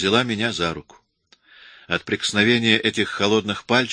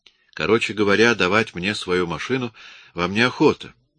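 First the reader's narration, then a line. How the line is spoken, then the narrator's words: Soft. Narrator (Russian): мягко произнесла она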